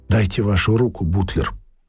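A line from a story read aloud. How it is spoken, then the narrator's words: Plain. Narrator (Russian): сказала Бичи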